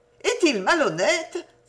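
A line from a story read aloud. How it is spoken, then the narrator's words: Exclaimed. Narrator (French): s'écria Jenny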